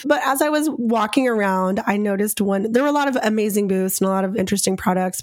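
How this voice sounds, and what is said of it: Strained, slightly off voice. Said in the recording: “my voice is slacking today because I talked to thousands of people ... So my voice is a little off.”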